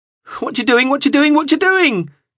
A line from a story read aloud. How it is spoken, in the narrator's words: shrieked